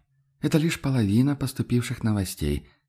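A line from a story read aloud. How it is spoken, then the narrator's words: Sighing. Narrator (Russian): вздохнул Висконти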